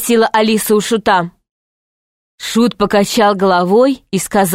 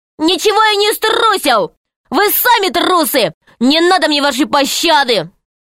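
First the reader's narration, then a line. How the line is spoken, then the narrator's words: Angry shout over noise. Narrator (Russian): Пашка разозлился и закричал, перекрывая свист и крики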